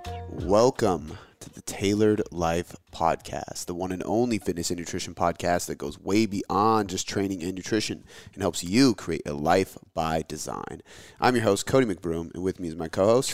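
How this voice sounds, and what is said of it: Slow, smooth radio-announcer voice. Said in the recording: “I tried to talk kind of slow. It sounds like a real good radio voice. ... Got that crackle.”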